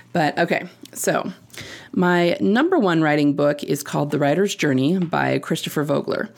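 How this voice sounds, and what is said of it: Croaky, throaty voice. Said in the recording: “My voice is a little bit croaky today, so I keep having to stop to clear my throat.”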